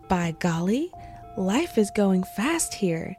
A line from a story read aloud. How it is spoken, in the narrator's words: exclaimed